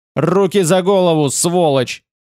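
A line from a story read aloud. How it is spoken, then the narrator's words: Terrifying shout. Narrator (Russian): крикнула страшным голосом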